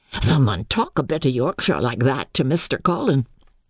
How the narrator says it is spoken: Dickon chuckled

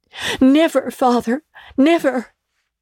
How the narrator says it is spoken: cried they all

